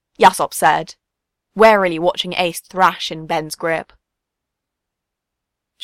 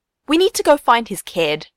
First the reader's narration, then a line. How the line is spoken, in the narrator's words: Luffy said firmly